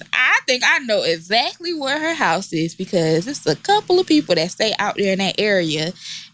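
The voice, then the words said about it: Imitates another person's voice. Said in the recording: “in my Kiki Palmer voice”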